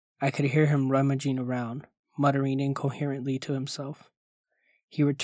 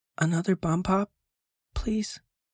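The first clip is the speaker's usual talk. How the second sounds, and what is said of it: Pitiful, pleading, whiny voice. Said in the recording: “I asked pitifully. Hiding the pleading whine in my voice was impossible.”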